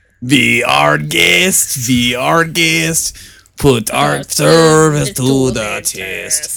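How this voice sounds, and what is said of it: Put-on French accent. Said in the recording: “That's the best French accent I've ever done.”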